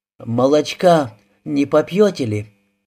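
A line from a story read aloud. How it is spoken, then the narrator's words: Wife's weak unsteady voice. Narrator (Russian): Его жена спросила Петельникова еще неокрепшим голосом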